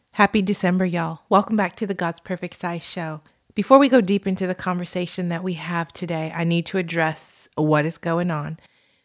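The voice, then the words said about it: Congested, raspy voice. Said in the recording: “I sound a little different because I got a cold over the weekend ... it left a little congestion and a whole lot of rasp ... If I don't sound like my usual self ... the leftover rasp”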